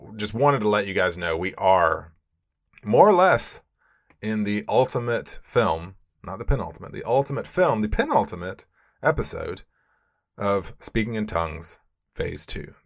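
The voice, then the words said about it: Slightly sardonic tone. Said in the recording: “my tone of voice is a little, sardonic”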